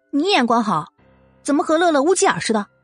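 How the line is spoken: Angry. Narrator (Chinese): 季如锦 愤怒的

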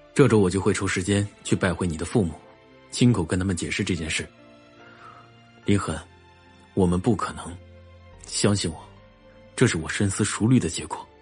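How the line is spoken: Cold, weary, annoyed. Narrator (Chinese): 荣寒生语气中有无奈，也有厌烦，冷冷的又说道

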